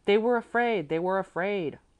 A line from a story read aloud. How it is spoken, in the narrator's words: all voices cried together